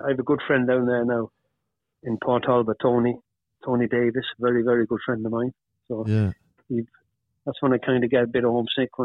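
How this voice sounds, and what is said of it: Mixed accent with Irish tinge. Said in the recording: “you've got a bit of a concoction in your accent. You obviously like a sound of Irish in you.”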